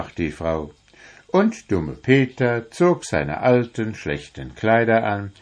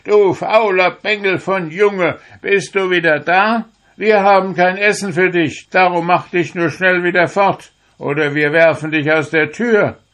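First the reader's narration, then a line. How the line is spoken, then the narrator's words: Shouted scolding. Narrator (German): schrien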